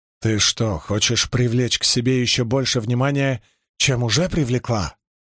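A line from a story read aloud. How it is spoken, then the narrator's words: Barking. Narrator (Russian): рявкнула Эления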